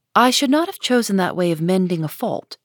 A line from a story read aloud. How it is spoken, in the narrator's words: replied her mother